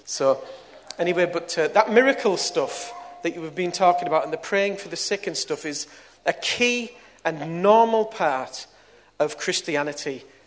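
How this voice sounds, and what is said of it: Teesside northern English accent. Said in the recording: “I was brought up round here, as you can hear from my accent. And a Teesside lad, Middlesbrough lad.”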